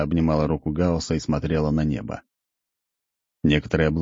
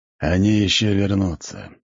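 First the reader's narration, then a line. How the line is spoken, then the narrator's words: Sighing. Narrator (Russian): вздохнул бог смерти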